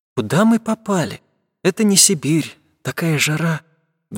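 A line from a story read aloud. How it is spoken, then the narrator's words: Sighing. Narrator (Russian): вздохнула она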